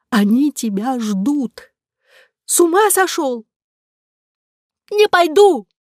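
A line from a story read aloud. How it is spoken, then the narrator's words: Hysterical shriek. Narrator (Russian): Истерично взвизгнув, Ромка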